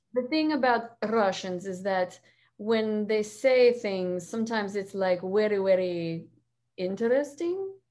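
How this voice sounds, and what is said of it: Put-on Russian accent. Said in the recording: “do the Russian one ... I'm going to talk a little bit more like this.”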